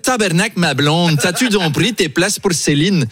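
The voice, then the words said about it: Put-on Québécois French accent. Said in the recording (French): “C'est mon imitation de Louis XVI ... j'ai pris un accent canadien parce qu'il paraît que le français du Québec est une conservation du français de l'époque ... c'est très bien imité”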